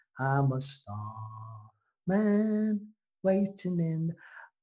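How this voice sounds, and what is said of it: Sings in a put-on English accent. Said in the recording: “he did sing in an English accent again.”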